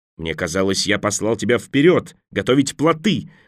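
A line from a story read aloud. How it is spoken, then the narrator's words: Angry yell. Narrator (Russian): заорал на него Николас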